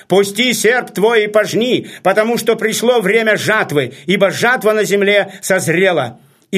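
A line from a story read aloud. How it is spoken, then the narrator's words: Loud proclamation. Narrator (Russian): другой ангел воскликнул громким голосом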